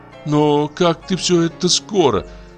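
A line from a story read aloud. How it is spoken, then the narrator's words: Tearful mumble. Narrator (Russian): промычала плаксивым голосом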